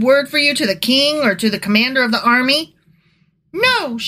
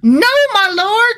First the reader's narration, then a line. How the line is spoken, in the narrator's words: she cried